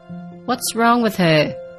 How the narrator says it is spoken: Zuri called out

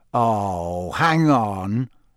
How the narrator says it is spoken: said Harry slowly

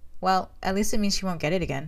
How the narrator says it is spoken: Sam said

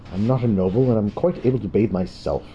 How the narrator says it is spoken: Durnik said hotly

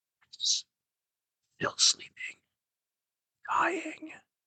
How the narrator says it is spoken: At my fourth repetition of the question, he said very faintly, almost inaudibly

